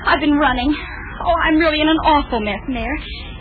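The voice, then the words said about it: Breathless, out-of-breath speech. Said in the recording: “you're all out of breath”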